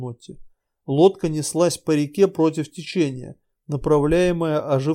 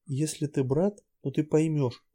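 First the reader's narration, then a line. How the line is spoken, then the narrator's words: Whisper. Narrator (Russian): прошептала Нотти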